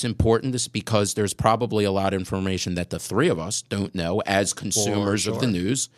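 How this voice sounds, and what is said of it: Usual voice. Nothing is said of it.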